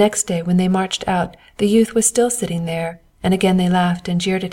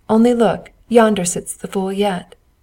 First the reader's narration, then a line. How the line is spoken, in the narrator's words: They laughed and said